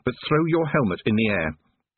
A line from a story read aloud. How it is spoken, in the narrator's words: managed to say through gritted teeth